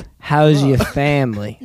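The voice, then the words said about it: Put-on Italian accent. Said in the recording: “Italian accents ... Nah, that ain't it.”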